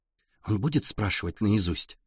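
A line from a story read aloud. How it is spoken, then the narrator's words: Quiet girl's question. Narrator (Russian): тихо спросила девчонка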